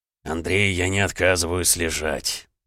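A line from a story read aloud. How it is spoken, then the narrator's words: Weary werewolf repeating. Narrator (Russian): устало повторил оборотень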